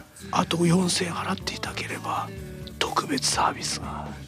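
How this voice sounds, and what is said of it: Whispered salesman character voice. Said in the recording (Japanese): “ささやき声、あのこの蝶ネクタイしたやつのささやき声”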